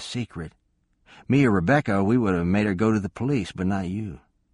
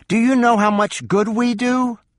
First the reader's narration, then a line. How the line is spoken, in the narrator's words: Linda shouted